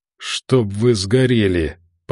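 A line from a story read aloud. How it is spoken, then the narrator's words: Hoarse rasp. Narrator (Russian): прохрипел он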